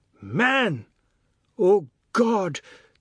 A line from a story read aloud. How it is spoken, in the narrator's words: the god exclaimed